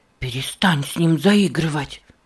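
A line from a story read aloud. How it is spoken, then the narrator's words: Sharp hiss. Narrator (Russian): резко прошипел Нева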